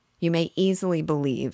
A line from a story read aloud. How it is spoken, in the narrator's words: said he